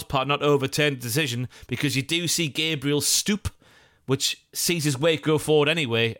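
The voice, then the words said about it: North Eastern English, slightly Geordie accent. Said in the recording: “my favourite word to hear in a North Eastern / slightly Geordie accent is stoop. That's lovely.”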